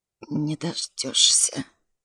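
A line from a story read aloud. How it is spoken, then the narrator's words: Hoarse wheeze. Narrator (Russian): просипел Дурбин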